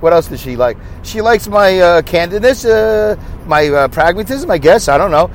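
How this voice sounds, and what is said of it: Brooklyn accent. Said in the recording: “I have a Brooklyn accent ... they like my Brooklyn accent”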